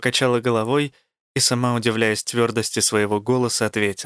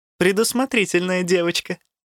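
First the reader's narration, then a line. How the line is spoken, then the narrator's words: Laughing. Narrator (Russian): рассмеялась Элла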